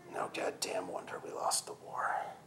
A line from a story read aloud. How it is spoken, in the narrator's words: he muttered